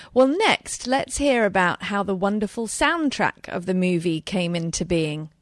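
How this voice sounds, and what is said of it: British accent. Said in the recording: “with my British accent there”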